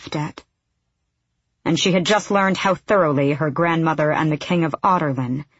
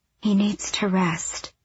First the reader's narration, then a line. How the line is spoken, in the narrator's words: Lysandra said gently